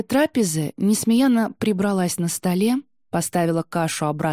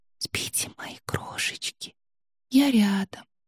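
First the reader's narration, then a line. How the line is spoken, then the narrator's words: Tender whisper. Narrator (Russian): прошептала она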